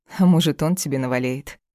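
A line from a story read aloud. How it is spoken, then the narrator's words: Ringing, catty laugh. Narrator (Russian): звонко стервозно рассмеялась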